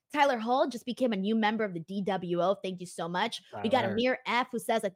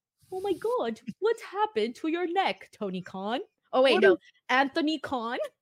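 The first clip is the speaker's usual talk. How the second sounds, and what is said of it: Put-on posh rich person's voice. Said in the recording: “What is that accent? ... It's my rich people voice ... They ain't gonna be talking all trashy like me.”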